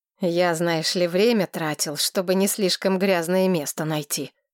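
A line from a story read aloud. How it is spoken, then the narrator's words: Grumbling. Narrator (Russian): проворчал Винсент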